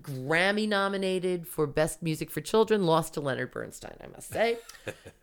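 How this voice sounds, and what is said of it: Imitates another person's voice. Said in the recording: “that, by the way, is late term Soupy Sales ... that is my copywritten imitation of, of Soupy”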